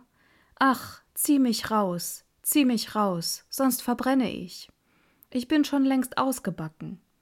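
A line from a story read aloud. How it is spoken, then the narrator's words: Bread calling out. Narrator (German): Das Brot rief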